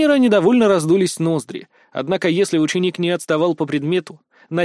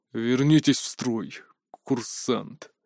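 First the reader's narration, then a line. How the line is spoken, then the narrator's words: Frustrated, through gritted teeth. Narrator (Russian): процедил он, будучи не в силах меня заставить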